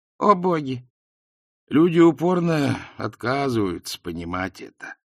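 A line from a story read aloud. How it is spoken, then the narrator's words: Weary. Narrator (Russian): устало проговорил Ринсвинд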